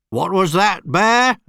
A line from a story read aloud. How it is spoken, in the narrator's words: barked Mr